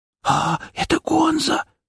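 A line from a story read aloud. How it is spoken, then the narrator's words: Frightened whisper. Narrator (Russian): испуганно прошептал вызываемый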